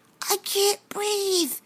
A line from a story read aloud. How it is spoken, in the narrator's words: she wheezed